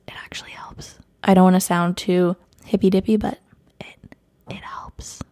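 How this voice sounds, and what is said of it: Whispering. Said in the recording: “I'm whispering so much today”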